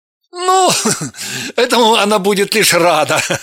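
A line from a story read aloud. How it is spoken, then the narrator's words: Laughing. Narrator (Russian): рассмеялся Евгений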